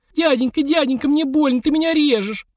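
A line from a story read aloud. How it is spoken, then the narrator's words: Whimpering. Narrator (Russian): прохныкала она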